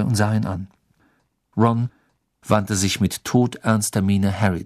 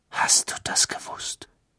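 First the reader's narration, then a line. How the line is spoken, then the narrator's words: Whispering. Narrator (German): wisperte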